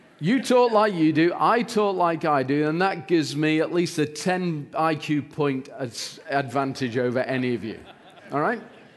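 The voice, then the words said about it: Non-local accent, possibly British. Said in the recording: “because of my accent ... we don't use words like smart dude where I come from. We would say something like, he's a clever chap”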